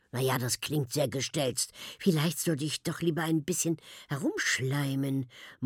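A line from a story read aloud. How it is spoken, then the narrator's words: Murmuring. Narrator (German): murmelt Mila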